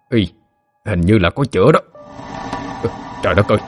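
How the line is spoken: Muttering man. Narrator (Vietnamese): Người đàn ông lẩm bẩm

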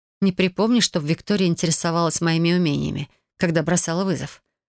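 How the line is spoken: Calm. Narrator (Russian): спокойно ответила я

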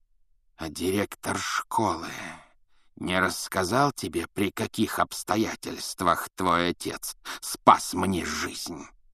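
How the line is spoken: Hissed. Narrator (Russian): прошипел он

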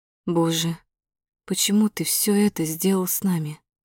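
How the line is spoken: Quiet. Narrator (Russian): тихо произношу

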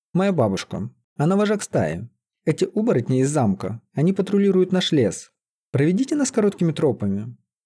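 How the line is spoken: Quick speech. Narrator (Russian): быстро заговорила Лиза

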